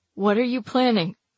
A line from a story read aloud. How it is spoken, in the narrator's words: His voice is calm, the words muffled by the swelling of his mouth